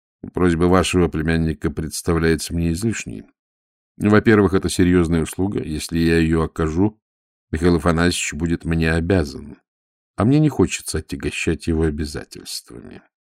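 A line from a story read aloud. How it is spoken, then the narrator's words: Dry, cold. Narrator (Russian): сухо сказал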